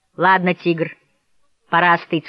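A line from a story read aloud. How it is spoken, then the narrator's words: Plain. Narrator (Russian): сказал он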